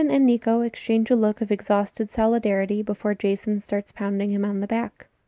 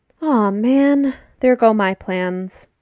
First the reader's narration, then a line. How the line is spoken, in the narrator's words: Percy says with an exaggerated sigh